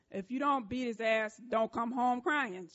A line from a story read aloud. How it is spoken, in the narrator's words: she said